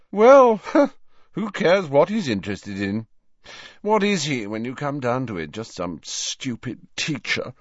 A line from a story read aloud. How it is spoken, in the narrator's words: Malfoy yawned ostentatiously